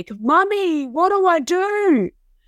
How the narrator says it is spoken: he screamed through the wall in panic

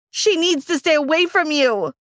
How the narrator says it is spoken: I yelled

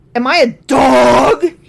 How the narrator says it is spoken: He roared at Jesus

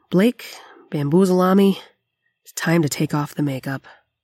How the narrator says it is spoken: I let out a sigh and said

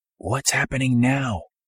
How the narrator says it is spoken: asked whispering

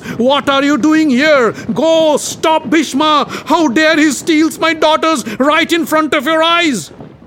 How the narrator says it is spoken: The Kashi king shouted at the guests

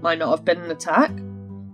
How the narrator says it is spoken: chuckled

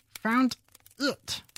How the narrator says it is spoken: the mouse replied rather crossly

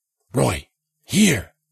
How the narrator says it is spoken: Jensen whispered

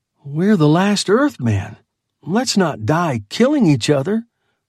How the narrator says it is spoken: pleaded the young man

